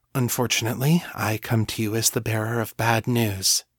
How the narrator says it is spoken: she said, her voice tight and controlled

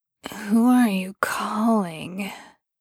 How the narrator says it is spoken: Sam asked muzzily the next morning, when he was woken

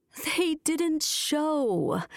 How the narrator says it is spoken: moaned Mrs

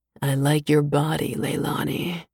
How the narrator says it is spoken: Tassar murmurs

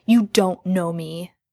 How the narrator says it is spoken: Jensen growled

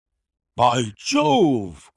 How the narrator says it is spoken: cried my client

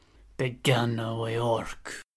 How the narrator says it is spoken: Egesa hissed in his ear

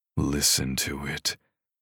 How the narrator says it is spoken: he groaned between gritted teeth

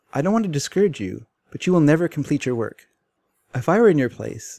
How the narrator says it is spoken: he said

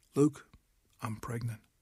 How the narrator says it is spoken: said softly, almost apologetically

